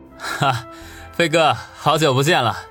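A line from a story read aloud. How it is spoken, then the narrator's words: Wry, awkward. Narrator (Chinese): 苦笑不得的说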